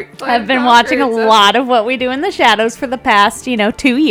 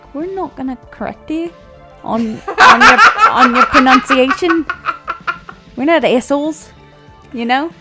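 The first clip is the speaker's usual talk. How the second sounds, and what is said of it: Put-on New Zealand accent. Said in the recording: “My accent's pretty good, right? ... It's like fucking Playa, Flight of the Conqueror.”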